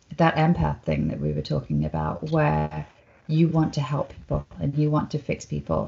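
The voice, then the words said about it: British accent. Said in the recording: “I'm British and they like my accent”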